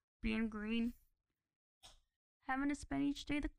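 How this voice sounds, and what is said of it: Poor Kermit the Frog voice. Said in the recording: “do your Kermit voice ... that was bad. that was bad”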